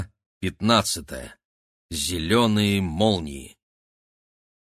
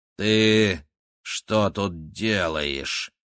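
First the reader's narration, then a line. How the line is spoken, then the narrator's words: Icy tone. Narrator (Russian): спросила она Максима ледяным тоном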